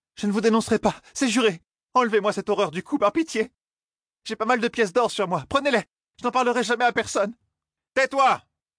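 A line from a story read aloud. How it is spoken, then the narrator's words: Shouted. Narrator (French): cria Ninevée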